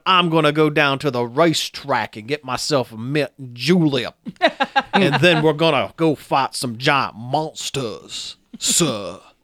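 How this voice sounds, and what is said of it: Exaggerated Southern plantation-owner country accent. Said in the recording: “He is like full blown. ... Like full blown, like plantation owner style country accent.”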